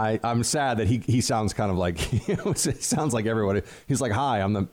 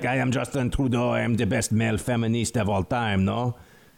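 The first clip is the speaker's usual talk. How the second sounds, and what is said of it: Put-on Quebecois French accent. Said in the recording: “I like when he sounds like this. He doesn't sound like this at all ... my Quebecois accent”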